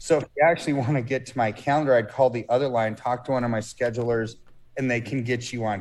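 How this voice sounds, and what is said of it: Raspy voice. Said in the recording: “I'm on the phone nonstop, which is why my voice is always raspy.”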